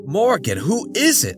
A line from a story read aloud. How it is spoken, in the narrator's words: John yelped